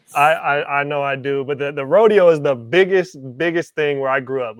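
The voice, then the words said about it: Southern low country accent. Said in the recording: “you got a low country accent”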